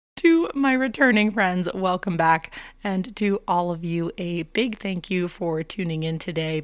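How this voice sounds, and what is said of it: Hoarse, raspy voice. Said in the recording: “my voice does not usually sound like this. I'm on the tail end of a case of laryngitis ... I have graduated from baby Mickey Mouse to a chain smoker”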